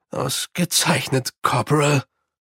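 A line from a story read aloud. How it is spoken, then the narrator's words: Weak. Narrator (German): sagte Mumm schwach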